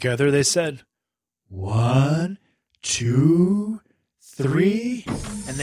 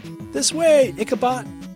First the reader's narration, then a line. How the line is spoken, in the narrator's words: yelled Finn